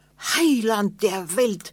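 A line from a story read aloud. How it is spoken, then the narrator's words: Fearful cry. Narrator (German): rief er voller Angst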